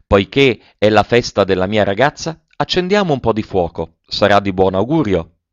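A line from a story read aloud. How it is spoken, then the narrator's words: Joyful exclamation. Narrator (Italian): il padre, tutto lieto di vedere la sua Eugénie più bella in un abito nuovo, aveva esclamato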